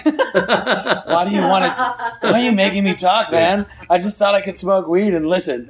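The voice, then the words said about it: Impression of another speaker. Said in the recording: “Is that an impression of me? ... A little bit. ... That's not bad.”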